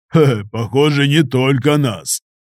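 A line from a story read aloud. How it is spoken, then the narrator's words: Amused chuckle. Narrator (Russian): хохотнул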